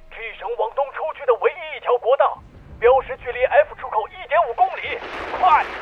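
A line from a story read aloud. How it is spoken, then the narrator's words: Reckless shout. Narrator (Chinese): 他不管不顾地冲着魏谦大喊一声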